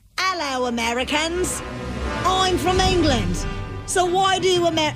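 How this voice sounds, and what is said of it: Attempted English accent, sounding Australian. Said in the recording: “you have to do an English impression ... that's like almost sounds Australian ... you sound like you're about to put shrimp on the Barbie”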